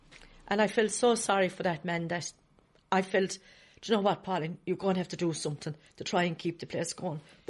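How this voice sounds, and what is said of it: Emotional, choked-up voice. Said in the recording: “I know I'm getting emotional again”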